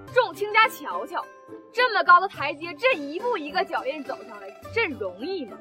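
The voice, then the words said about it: Northeastern Chinese accent. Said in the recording (Chinese): “还他妈是东北口音！你寻思跟我俩搁这唱二人转呢？”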